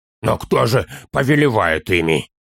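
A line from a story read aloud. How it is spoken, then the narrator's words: Hoarse question. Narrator (Russian): хрипло спросил Торин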